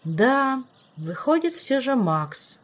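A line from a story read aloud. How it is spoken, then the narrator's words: Sad. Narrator (Russian): грустно кивнул Раэл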